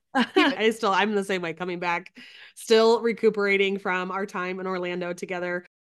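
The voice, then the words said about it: Congested, clogged-sounding voice. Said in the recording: “you can tell by my voice that I sound quite clogged... Quite clogged”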